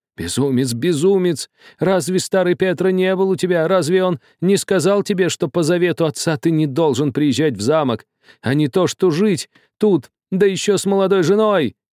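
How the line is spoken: Old man shouting, shaking. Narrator (Russian): кричал весь, трясясь, старик

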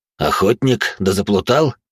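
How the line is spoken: Older soldier's mocking grunt. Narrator (Russian): хмыкнул один из бойцов, по-видимому, старший

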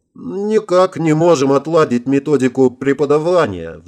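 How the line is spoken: Sighing. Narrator (Russian): вздохнула Орлова

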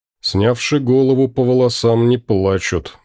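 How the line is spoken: Gloomy inner thought. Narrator (Russian): мрачно подумал

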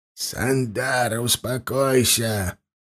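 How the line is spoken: Creaky rasping voice. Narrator (Russian): проскрипел Рашна

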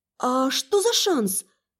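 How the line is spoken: Uncertain questioning. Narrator (Russian): неуверенно переспросила я

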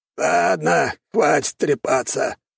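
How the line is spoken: Hoarse rasp. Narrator (Russian): прохрипел он

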